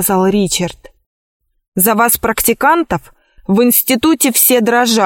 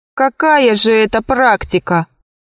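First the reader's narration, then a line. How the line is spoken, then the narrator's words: Laughing. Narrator (Russian): засмеялся Пашка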